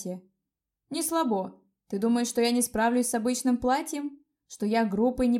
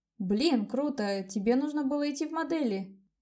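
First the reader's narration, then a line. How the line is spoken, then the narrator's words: Excited, in an undertone. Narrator (Russian): Я даже не смогла сдержать эмоций, негромко присвистнула и добавила вполголоса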